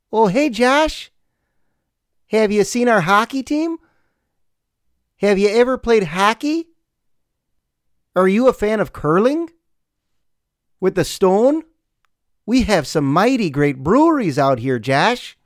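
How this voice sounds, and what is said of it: Put-on Fargo-style Midwestern accent. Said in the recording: “It's a tough accent. I mean, I like hearing it, but it's tough to do. ... I actually liked Fargo.”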